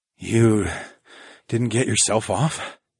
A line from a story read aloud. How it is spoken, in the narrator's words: I mumbled